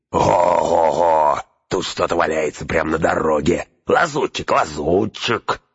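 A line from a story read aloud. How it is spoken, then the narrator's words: Hoarse shrieking, overlapping shouts. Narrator (Russian): Сипло завизжали рога, все перекрикивали друг друга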